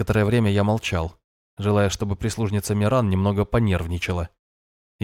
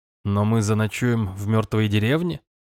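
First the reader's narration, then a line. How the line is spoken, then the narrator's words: Snorting. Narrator (Russian): хмыкнул я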